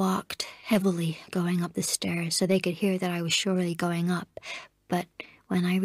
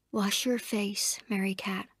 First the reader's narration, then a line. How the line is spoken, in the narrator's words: Constance said gently